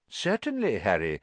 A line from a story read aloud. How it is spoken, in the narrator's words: said Dumbledore calmly